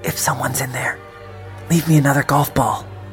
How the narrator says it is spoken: I whispered

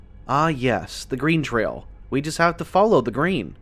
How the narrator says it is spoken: Danny commented dryly

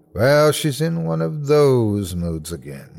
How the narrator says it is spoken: she muttered

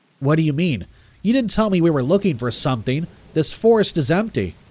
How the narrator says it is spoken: I said angrily

